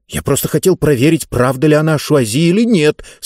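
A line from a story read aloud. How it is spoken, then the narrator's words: Muttered through teeth. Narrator (Russian): сквозь зубы пробормотал он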